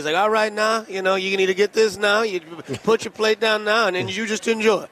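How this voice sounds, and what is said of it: Imitated Louisiana accent. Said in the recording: “I love the accents. ... That's one of the coolest accents I've ever heard. ... I'll take the Louisiana accent every day of the week”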